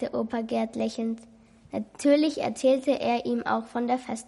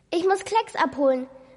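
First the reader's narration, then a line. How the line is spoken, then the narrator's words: Sudden call. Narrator (German): rief Lucian plötzlich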